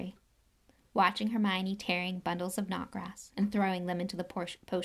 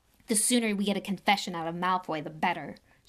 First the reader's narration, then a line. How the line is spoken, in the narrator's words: snarled Ron